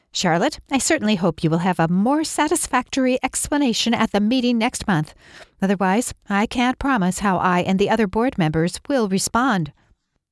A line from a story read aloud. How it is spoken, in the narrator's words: The woman, her voice sharp with irritation, said